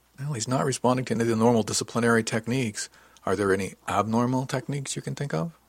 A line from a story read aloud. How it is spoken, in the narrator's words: asked